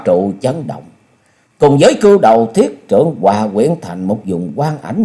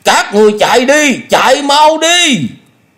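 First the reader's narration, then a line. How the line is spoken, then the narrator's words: Loud shout. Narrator (Vietnamese): hét lớn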